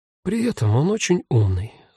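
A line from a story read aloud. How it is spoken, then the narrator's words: Sighing. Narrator (Russian): вздохнула Марьяна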